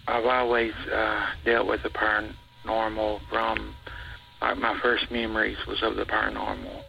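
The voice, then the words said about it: Unusual regional accent. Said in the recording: “I've got a weird accent.”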